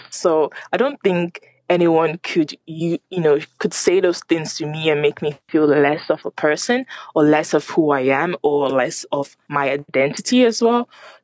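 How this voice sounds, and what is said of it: Non-Irish accent. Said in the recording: “as you can tell from my accent, I'm very much not Irish”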